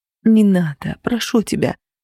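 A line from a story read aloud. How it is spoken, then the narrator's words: Whisper. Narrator (Russian): шептала я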